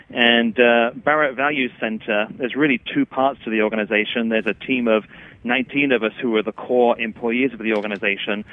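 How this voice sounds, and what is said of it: English accent. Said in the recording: “you might hear from my accent, I'm English”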